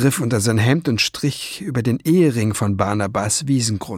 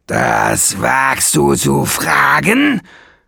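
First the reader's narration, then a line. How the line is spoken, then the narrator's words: Roared. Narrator (German): brüllte Nesselbrand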